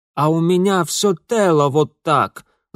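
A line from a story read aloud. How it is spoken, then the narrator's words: Angry hiss. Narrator (Russian): зло прошипел Ингвар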